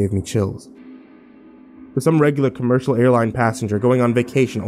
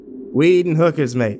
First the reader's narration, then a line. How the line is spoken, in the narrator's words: he said